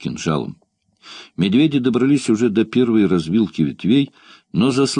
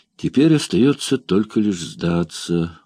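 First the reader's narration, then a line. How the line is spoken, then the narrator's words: Dejected, sinking voice. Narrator (Russian): упавшим голосом проговорил Ван Штиллер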